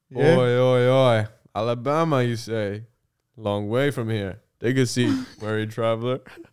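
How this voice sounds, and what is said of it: Put-on accent. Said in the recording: “I'm doing a bit of an accent here”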